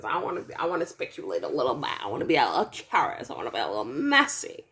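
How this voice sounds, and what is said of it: Put-on 1920s flapper accent. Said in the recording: “What is this 1920s accent? ... like a little flapper wing, like a finger wave”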